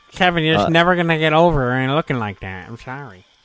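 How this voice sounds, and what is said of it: Imitates another person's voice. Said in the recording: “That's actually a very good Kevin Dunn impression.”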